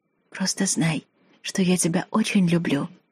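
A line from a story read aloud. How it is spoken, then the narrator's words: Tearful whisper in ear. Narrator (Russian): прошептала я на ухо малышу, стараясь не разреветься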